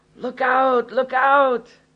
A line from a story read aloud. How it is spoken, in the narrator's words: His friend, who was outside, suddenly shouted